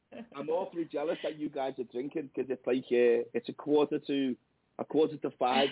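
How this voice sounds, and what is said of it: Thick Scouse accent, voice hoarse from cold. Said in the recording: “it's absolutely ravaged me voice. ... I've got a thick Scouse accent with a proper cold going on behind it.”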